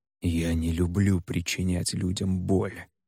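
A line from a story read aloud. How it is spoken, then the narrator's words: Hoarse self-loathing whisper. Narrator (Russian): хрипло прошептал Хальд, снова испытывая ненависть к самому себе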